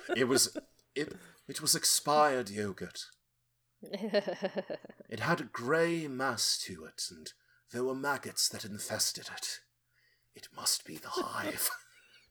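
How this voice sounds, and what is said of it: Poor imitation of another person's voice. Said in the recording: “That was a terrible impression of”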